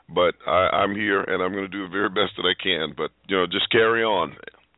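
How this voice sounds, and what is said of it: Slightly congested voice with a cold. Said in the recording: “I'm actually kind of nursing a cold here. I don't know if you can hear it in my voice... I can a little bit, yeah... Congestion all in my chest, and so my head's not quite clear”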